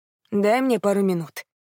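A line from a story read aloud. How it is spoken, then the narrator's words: Plain. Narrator (Russian): сказал Билл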